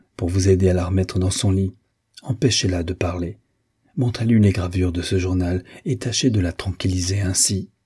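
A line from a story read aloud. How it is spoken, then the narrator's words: Very quiet. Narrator (French): dit-il tout bas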